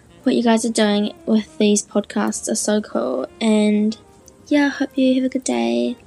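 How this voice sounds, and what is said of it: New Zealand accent. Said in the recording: “I'm from New Zealand ... New Zealand accent”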